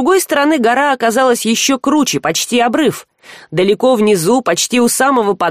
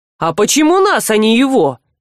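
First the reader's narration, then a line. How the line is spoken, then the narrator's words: Indignant interruption. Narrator (Russian): возмущенно перебил Жар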